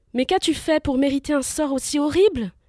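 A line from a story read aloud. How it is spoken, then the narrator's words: Exclaiming. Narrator (French): s'exclama-t-il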